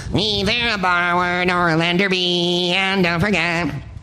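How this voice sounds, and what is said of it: Pinky and Perky singing impression. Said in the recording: “That was my impression of Pinky and Perky singing Hamlet.”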